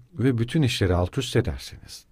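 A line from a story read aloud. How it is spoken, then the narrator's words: Plain. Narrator (Turkish): dedi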